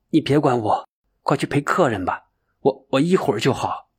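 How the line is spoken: Choked sobbing. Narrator (Chinese): 哽咽道

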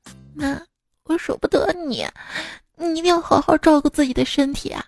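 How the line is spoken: Choked, close whisper. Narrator (Chinese): 在她耳边哽咽的说

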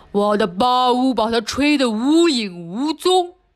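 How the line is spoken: Roaring. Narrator (Chinese): 熊咆哮道

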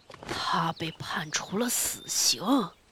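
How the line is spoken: Low, urgent, anxious whisper. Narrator (Chinese): 大白兔的话声又低又急，惶惶不安地，低声细语地说

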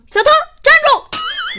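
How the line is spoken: Shout. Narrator (Chinese): 保安喊了一声

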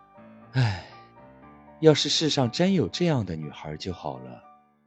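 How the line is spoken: Sighing. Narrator (Chinese): 他叹了一口气说

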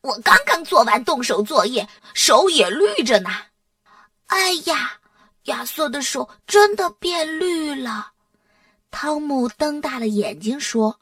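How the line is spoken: Cheerful laughing speech. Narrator (Chinese): 巴斯特笑呵呵地说

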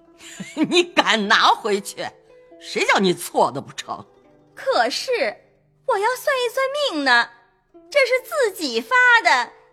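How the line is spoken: Laughing heartily. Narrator (Chinese): 贾母笑得已掷下牌来说

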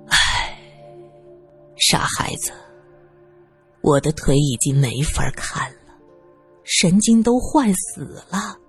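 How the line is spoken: Sighing. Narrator (Chinese): 教授叹了口气

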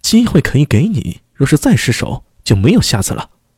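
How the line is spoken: Stern, harsh. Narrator (Chinese): 厉声道

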